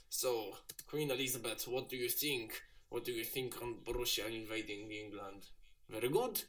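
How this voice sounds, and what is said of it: Put-on Russian accent. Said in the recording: “I'll put on like a Russian accent”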